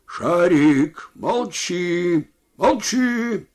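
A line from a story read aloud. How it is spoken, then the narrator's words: Shouting at dog. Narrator (Russian): крикнул другой на собаку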